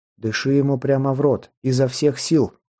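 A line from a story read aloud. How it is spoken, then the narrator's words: Commanding tone. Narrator (Russian): приказным тоном произнес Прометей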